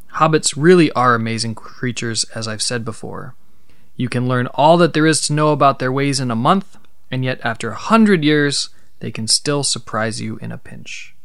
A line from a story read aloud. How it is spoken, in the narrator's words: exclaimed Gandalf